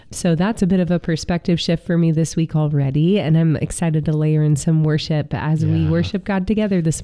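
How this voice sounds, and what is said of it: Sick, congested voice. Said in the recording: “as you can hear in my voice, I could use a little bit of a reset. Just been under the weather this week, trying to fight back a cold.”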